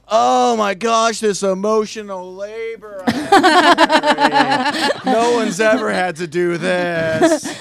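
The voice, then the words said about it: Imitates a stereotypical man's voice. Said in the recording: “Here's my impression of any man”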